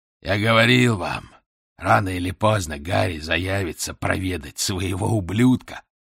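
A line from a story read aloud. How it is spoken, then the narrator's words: Hoarse gloating. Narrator (Russian): ликовал хриплый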